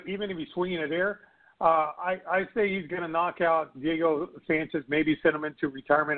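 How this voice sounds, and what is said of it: Hoarse, failing voice. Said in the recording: “I'm losing my voice. ... Good Lord, I'm losing my voice.”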